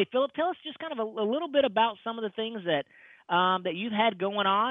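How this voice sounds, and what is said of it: East Texas accent. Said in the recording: “I got a little accent. Mine's East Texas.”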